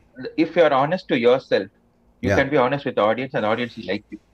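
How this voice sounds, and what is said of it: Tamil Indian English accent. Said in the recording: “I am a Tamilian. This is how my accent will be.”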